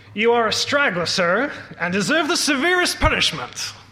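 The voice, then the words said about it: Put-on accent. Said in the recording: “Sorry for the accent.”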